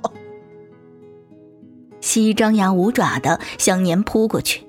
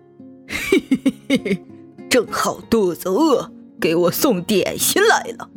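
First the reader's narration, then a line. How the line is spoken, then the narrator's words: Snickering. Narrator (Chinese): 暗自偷笑道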